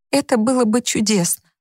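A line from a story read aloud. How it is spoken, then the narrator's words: Tearful, crying. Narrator (Russian): Она заплакала в трубку, но сказала сквозь слезы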